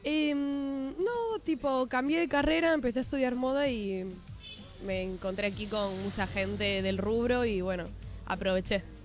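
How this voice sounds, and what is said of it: Spanish accent from Spain. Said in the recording (Spanish): “me parecía que tenía un acento... Soy de España... De Galicia.”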